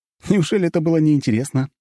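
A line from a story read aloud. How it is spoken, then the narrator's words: Cheerful tone. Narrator (Russian): веселым тоном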